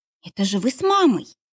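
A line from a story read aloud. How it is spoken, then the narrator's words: Exclaimed. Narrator (Russian): воскликнула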